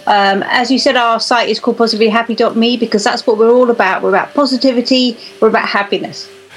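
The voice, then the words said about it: English accent. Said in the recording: “you don't sound like you're in North America right now. It seems to me you sound like you're across some big body of water ... I could just tell by the accent”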